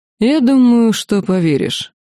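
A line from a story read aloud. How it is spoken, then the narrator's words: Calm. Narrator (Russian): спокойно ответил демон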